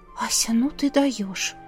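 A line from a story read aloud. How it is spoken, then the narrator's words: Whisper. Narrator (Russian): Сестра прошептала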